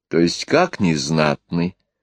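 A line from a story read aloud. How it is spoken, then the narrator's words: Displeased interruption. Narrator (Russian): недовольным тоном перебила ее невестка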